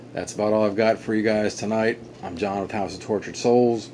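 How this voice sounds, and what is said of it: Tired, stuttering and mumbling speech. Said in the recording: “I'm sorry I'm stuttering and mumbling. It's been a long day.”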